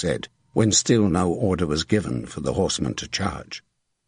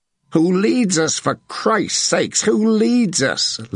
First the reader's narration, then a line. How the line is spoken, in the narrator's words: Lanfarel asked loudly